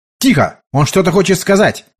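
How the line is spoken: Guard shouting. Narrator (Russian): выкрикнул один из гвардейцев

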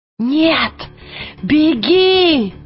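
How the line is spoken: Shouting. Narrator (Russian): крикнула Лира

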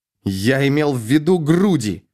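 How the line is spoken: Snapping retort. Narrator (Russian): огрызнулся Ангмар

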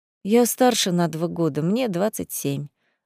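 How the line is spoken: Sorrowful sigh. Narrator (Russian): опять горестно вздохнула Катя

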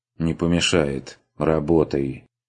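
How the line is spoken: Sighing. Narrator (Russian): Вздохнул Штойперт

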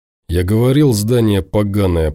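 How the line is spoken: Grumbling. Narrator (Russian): проворчал тот

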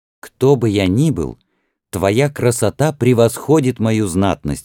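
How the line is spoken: Exclamation. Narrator (Russian): воскликнул Рамсес

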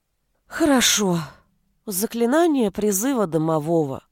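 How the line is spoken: Dejected announcement. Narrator (Russian): упавшим голосом объявила я

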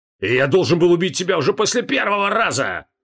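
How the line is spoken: Roared. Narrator (Russian): проревел Криол, всем телом наваливаясь на посох

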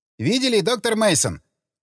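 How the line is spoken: Shouted close to ear. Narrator (Russian): Приблизив лицо к моему уху, прокричал Джек Строу

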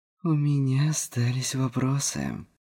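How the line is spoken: Indistinct lisping. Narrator (Russian): Невнятно прошепелявила

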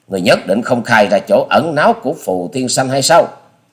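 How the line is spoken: Stern shout. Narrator (Vietnamese): Hoa Sĩ Kiệt dằn giọng quát

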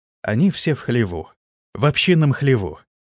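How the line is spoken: Quiet. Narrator (Russian): тихо проговорил разведчик

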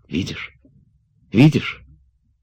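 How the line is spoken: Startled whisper. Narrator (Russian): вздрогнув, шептала

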